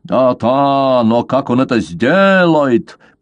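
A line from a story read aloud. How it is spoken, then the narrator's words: Grumbling. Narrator (Russian): проворчал Вандеркейлен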